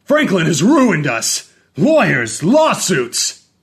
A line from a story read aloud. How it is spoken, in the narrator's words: he yelled that loud enough for Franklin to hear, clear upstairs